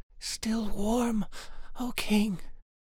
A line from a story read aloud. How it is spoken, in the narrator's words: the poor girl was so stiff and numb that she could just gasp